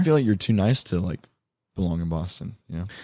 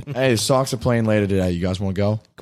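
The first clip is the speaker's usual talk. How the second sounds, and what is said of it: Put-on Boston accent. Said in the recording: “Can you mimic a Boston accent? ... Perfect.”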